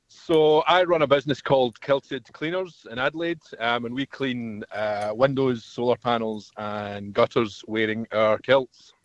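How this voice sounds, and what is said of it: Speaks with a noticeable accent. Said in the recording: “you've got an accent.”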